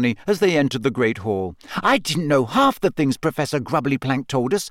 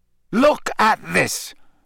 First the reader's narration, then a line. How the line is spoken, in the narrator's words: Harry snarled